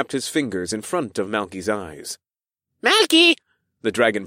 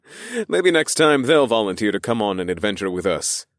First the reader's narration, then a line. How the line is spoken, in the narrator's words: I chuckled